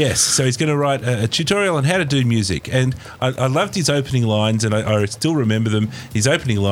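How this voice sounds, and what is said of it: Usual voice. Nothing is said of it.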